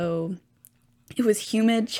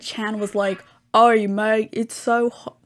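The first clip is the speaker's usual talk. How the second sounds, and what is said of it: Bad put-on Australian accent. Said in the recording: “That's a horrible Australian accent.”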